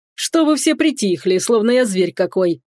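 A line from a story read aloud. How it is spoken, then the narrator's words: Joyful deep bass. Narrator (Russian): радостно пробасил Салазар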